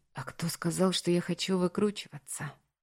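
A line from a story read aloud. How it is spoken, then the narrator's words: Whisper. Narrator (Russian): уточнил я шепотом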